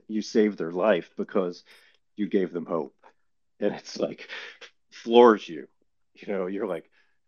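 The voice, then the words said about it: Choked-up, emotional voice. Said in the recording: “I'm getting choked up just talking about that right now”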